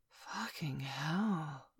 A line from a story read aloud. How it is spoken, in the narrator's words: Mum gasped